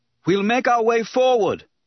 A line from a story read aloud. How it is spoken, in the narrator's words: Obi-Wan shouted